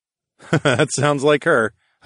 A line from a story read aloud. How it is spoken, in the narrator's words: I laughed